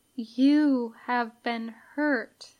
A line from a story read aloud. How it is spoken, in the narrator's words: she says slowly